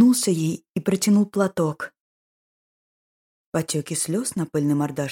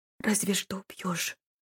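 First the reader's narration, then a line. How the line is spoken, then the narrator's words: Sudden whisper. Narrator (Russian): вдруг прошептала она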